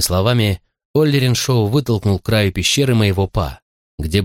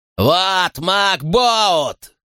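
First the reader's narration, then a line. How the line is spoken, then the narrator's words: Yelling madly. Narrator (Russian): заорал Оллериншоу как безумный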